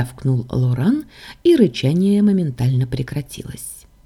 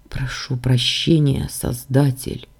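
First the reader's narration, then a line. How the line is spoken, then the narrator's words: Quiet. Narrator (Russian): тихо проговорил Дамиан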